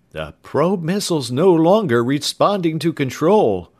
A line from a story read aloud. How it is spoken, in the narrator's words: one of the telemetering scientists called out